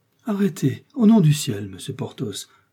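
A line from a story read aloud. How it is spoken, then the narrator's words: Exclaimed. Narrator (French): s'écria-t-elle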